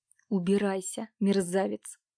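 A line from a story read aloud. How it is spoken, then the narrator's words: Through gritted teeth. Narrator (Russian): процедил Иван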